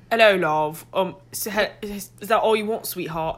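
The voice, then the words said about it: Thick put-on British accent. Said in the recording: “Just such a vibrant, thick British accent. ... Vibrant, thick British accent. ... So thick.”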